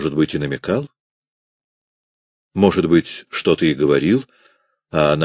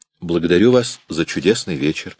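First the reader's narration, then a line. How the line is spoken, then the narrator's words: Plain. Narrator (Russian): сказал он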